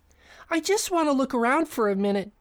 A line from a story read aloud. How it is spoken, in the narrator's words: he exclaimed, barely able to contain his excitement